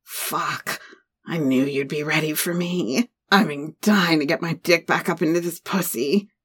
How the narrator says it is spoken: he growled

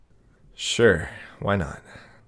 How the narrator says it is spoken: His voice was still quiet, as if what he was saying needed to be kept a secret

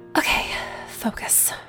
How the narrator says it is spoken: I muttered under my breath in my too high voice

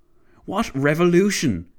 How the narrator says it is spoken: Clavel barked

